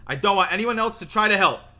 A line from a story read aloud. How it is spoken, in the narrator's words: Harry said loudly, and in the total silence, his voice carried like a trumpet call